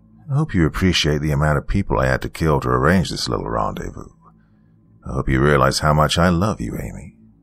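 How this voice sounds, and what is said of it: Charming villainous character voice. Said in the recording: “in his usual charming voice.”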